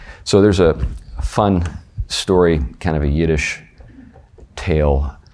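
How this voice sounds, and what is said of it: Usual voice. Nothing is said of it.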